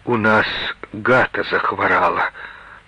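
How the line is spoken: Forced out reluctantly. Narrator (Russian): наконец выдавил из себя

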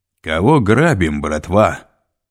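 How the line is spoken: Loud croaking voice. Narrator (Russian): громко каркнул Пит

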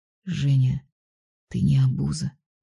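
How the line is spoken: Whisper. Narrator (Russian): прошептал он

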